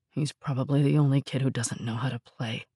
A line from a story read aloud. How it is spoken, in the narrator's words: Rob muttered, remorse creeping into his voice